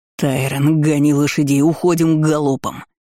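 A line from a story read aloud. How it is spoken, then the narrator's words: Barking shout. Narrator (Russian): рявкнул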